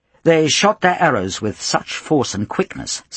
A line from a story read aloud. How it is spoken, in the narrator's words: says Froissart